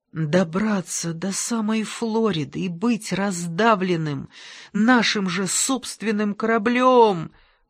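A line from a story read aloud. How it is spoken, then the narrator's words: Groaned. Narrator (Russian): простонал Ангела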